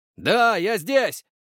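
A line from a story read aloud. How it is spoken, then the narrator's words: Yelled at full strength. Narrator (Russian): заорал, что было мочи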